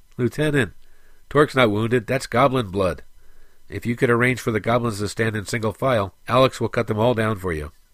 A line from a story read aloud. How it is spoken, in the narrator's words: One of the other Red Swords laughed and stated